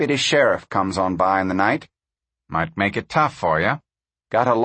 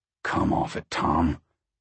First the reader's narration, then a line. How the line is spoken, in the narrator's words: Pa growled